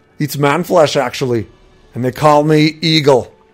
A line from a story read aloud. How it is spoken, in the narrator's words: the Nord replied